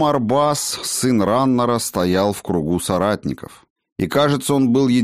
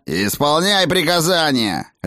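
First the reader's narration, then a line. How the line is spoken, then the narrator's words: Barking. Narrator (Russian): рявкнул гном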